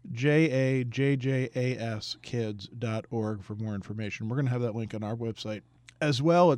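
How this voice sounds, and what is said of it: Hoarse, fading voice. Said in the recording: “I'm sorry I'm losing my voice here”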